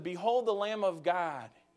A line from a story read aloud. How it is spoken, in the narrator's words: John says